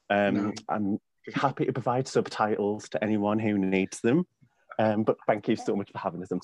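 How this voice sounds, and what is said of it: Thick English accent. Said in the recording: “joining us all the way from England ... apologize about my thick accent”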